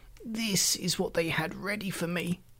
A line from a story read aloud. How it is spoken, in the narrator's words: he quavered